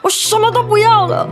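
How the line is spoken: Frantic yelling. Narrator (Chinese): 爸爸失去控制的 嘴上嚷嚷着

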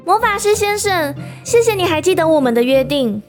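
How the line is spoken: Smiling. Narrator (Chinese): 对魔法师一笑

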